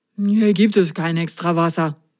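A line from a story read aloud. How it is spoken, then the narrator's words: Mumbling. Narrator (German): nuschelte er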